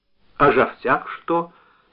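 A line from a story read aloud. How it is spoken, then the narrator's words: Quiet question. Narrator (Russian): спросил он негромко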